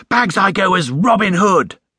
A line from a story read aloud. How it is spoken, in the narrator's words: exclaimed Jonathan